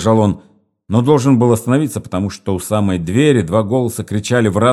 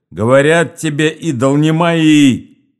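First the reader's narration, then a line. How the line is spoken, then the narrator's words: Shouting. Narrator (Russian): кричал один голос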